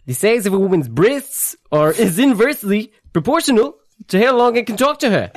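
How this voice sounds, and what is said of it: Rhys Darby and Woody Allen impression. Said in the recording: “It was like Reese Darby and Woody Allen... Yeah, that was Woody Allen... You were like fighting for control of your body.”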